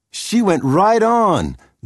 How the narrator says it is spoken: Lydia cried

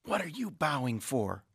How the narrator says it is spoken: Michael whispered to Dennis

